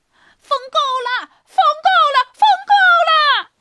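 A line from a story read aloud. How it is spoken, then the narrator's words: Frightened loud shout. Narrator (Chinese): 皇帝开始害怕了，大声的喊道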